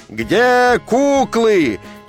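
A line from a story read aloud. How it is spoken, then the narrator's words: Crowd roaring like siren. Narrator (Russian): людская масса взревела, как пожарная машина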